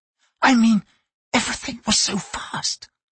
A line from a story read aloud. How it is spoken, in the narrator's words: he whispered